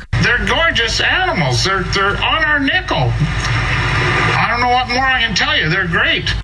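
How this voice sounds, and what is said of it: Strong Canadian accent. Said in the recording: “he is a very Canadian-sounding man ... Oh, I love that Canadian accent.”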